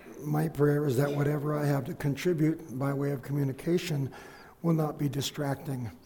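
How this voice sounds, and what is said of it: Voice in poor condition. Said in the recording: “I apologize for my voice”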